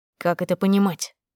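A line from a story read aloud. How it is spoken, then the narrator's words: Quiet but harsh. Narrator (Russian): спросил муж тихо, но жестко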